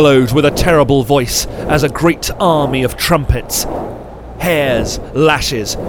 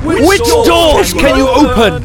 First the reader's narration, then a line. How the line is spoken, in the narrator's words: I shrieked